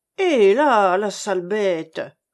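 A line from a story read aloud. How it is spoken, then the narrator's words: Grumbled. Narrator (French): grogna à son tour Cornouille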